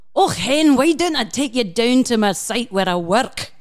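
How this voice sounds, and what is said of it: Put-on Scottish accent. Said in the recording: “I'd like to apologize to any of our listeners who are Scottish ... wonderful accent ... It's beautiful. It's the thing of beauty.”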